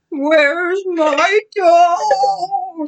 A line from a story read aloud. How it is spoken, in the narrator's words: the voice groaned